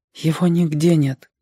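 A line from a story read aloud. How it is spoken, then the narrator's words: Low voice. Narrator (Russian): вполголоса сказала мама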